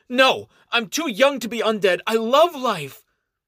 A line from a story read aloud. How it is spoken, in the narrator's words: Helpless, Ganyan shouts